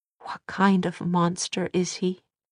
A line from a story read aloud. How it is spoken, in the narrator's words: Tessa whispered